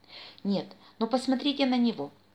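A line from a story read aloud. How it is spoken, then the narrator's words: Exclaiming. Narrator (Russian): воскликнул еще один пират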